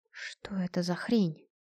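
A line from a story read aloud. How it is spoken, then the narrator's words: Quiet question. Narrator (Russian): тихо спросила телепатка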